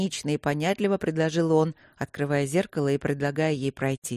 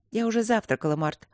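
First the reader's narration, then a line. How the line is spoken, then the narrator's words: Calm answer. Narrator (Russian): ответила она спокойно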